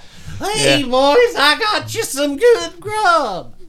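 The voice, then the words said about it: Put-on folksy cowboy dialect. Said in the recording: “just going with the whole dialect thing.”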